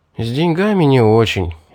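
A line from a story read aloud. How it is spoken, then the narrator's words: Sighing. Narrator (Russian): вздохнул я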